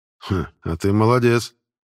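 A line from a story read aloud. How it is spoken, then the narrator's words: Snorting, over shoulder. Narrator (Russian): хмыкнул вице-адмирал, бросив через плечо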